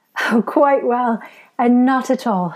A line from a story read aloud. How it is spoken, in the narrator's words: she replied, laughing still